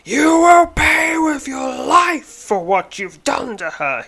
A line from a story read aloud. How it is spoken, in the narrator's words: screams